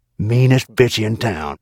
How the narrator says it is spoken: Harry Rex, who mumbled to me under his breath

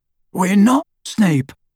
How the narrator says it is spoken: croaked Harry

